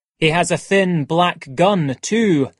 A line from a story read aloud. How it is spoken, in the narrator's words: said Montgomery